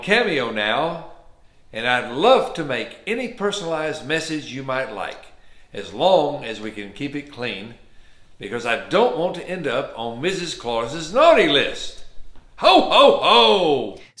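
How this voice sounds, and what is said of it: Slow Southern American accent. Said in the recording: “It's definitely Southern. ... he's definitely from the South. He's also very slow. ... he's not fast.”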